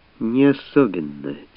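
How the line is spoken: Quiet reply. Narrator (Russian): тихо промолвила в ответ Рене

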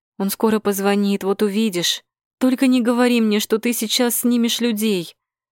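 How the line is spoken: Pleading. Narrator (Russian): Взмолилась я

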